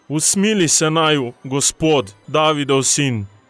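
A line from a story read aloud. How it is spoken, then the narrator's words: Two voices shouting. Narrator (Slovenian): sta zavpila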